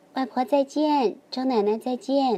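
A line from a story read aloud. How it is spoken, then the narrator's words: Loud child. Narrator (Chinese): 小乐大声地说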